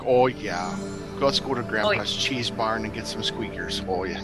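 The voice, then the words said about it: Put-on Wisconsin accent. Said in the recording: “I love the accent. I don't hear a Wisconsin accent from you.”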